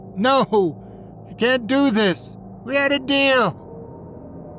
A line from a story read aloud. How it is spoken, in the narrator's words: desperate pleas in his final moments as he screamed